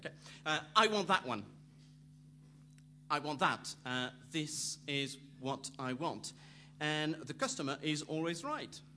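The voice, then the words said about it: Put-on Somerset accent. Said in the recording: “I'm going to do a proper accent, a proper Somerset accent”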